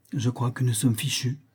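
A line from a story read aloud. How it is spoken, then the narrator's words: Frightened murmur. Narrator (French): murmura-t-il en pâlissant légèrement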